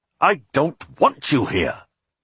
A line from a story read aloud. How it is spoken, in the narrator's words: he said harshly